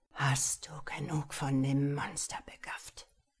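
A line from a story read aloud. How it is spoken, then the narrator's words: Growled. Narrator (German): knurrte er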